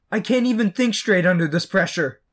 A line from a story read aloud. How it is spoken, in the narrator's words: Peter cried